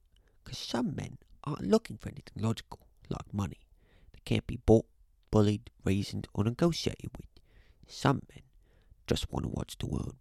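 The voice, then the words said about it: Michael Caine impression. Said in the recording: “really good Michael Caine impression”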